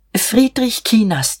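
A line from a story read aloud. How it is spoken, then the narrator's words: Murmuring. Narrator (German): murmelte er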